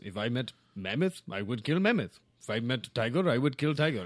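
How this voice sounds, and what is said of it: Put-on Russian accent. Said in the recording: “it seems like you have a Russian ... dialect. ... Accent”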